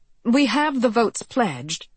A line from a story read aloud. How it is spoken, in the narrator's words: she said